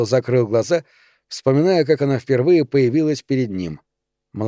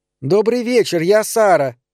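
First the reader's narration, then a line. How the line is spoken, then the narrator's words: Shouting over screaming child. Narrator (Russian): прокричала она на итальянском, чтобы перекрыть вопли дочери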